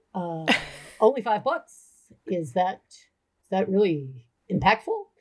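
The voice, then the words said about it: Imitates another person's voice. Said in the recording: “I'm going to do you like my dad. ... I'm doing my father impression.”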